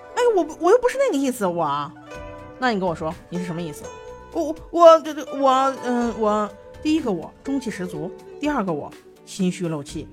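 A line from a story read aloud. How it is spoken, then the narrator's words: Stunned, angry. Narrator (Chinese): 金陵怔了怔，怒道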